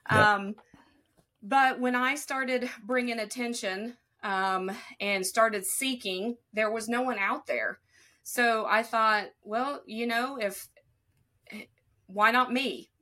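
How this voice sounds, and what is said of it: Rural Appalachian country accent. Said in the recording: “I've got this accent and I am a country girl born and raised, raised up the holler ... I do have this accent”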